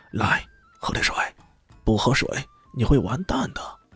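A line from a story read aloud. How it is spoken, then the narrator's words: Whispered. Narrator (Chinese): 有人悄声道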